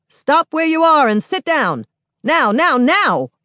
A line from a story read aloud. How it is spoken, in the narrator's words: The child cop yells